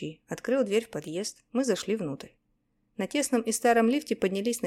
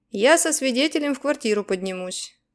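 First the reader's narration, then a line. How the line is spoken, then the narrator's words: Shouted. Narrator (Russian): крикнул Гонза коллегам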